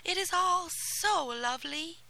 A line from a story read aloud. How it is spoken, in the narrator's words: cried